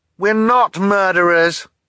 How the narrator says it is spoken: Violet cried in frustration

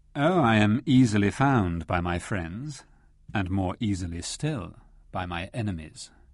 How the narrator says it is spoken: replied Rashly coolly

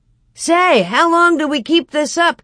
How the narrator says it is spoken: Cap shouted once, joking

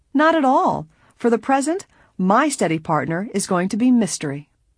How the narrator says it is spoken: Laughing gaily said

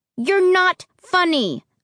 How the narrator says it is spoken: said angrily

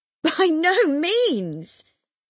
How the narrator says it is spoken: cried Mrs

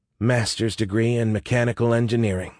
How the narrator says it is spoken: muttered

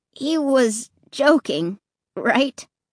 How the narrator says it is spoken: Clay asked in a trembling voice

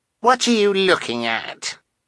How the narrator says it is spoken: Carmelita asked scornfully

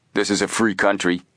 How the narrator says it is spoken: Frank retorted, also speaking in a tough tone

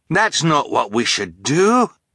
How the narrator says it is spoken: Fiona cried

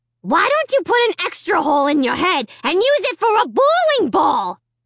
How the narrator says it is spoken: Slappy screamed at Dad

